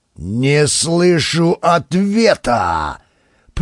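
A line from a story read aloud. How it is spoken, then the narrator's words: Growl. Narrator (Russian): Прорычал Владимир Викторович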